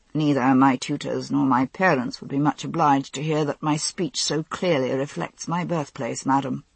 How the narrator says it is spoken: he said dryly

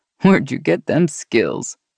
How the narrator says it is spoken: He laughed

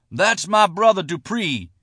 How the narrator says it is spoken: John Harden screamed from his island of steel

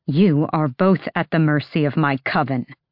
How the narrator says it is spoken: Manon snarled

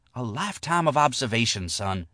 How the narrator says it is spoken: she whispered

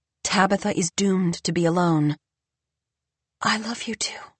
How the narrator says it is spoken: she whispers to the floor

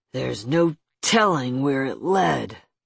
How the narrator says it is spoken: growled Tanner, voice hard as stone

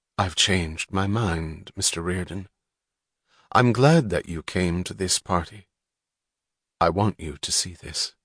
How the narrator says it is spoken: his face normal, and said very quietly

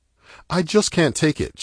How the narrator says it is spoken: she cries out

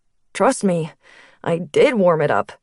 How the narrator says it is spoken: laughed

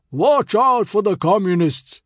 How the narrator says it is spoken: he bellowed

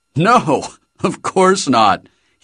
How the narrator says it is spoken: laughed

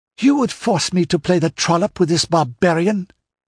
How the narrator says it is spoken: she exclaimed

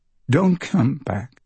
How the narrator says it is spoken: she says, her voice breaking

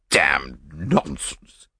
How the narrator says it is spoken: he spluttered

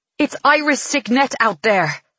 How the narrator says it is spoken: Farley snarls

